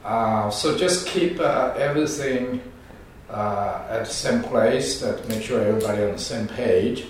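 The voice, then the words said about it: Hoarse, sick-sounding voice. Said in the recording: “lose my voice ... we kind of catch a few bugs during the weekend. So my voice sounds very bad ... you can see my voice changed”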